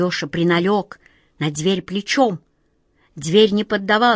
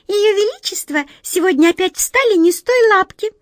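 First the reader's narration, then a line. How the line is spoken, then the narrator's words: Worried squeak, small mouse. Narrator (Russian): озабоченно пропищала одна мышка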